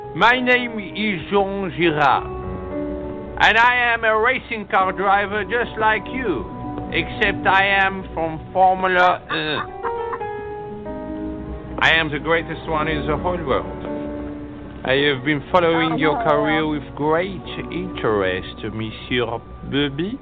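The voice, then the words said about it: Exaggerated put-on French accent. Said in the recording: “you sound like a dog with peanut butter on the roof of your mouth ... what you are hearing is my accent. I am French.”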